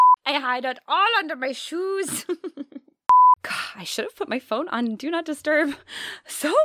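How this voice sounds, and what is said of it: Usual voice. Nothing is said of it.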